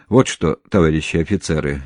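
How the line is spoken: Even more solemn. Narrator (Russian): еще более торжественным тоном продолжал Сажин

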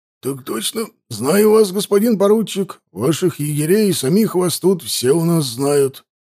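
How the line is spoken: Strained hoarse wheeze. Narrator (Russian): просипел он сдавленным голосом

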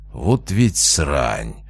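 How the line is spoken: Shocked exhale. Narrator (Russian): потрясенно выдохнул Велесов

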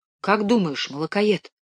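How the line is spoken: Whisper. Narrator (Russian): прошептал Димка

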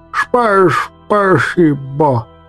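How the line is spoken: Relieved toothless mumble. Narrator (Russian): Выдохнул я с огромным облегчением, шамкая беззубым ртом

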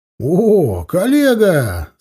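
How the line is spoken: Laughing. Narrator (Russian): смеясь, протянул мне руку Вася

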